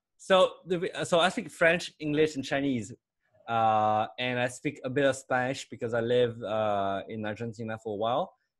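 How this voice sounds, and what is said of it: French Chinese accent. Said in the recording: “all of that with a French Chinese accent, which is even weirder”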